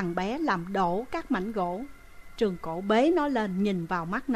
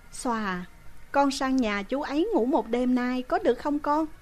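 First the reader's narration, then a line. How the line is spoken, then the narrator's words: Sighing woman. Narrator (Vietnamese): Chị lại thở dài nói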